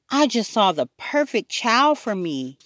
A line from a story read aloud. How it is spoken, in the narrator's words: yelled Quint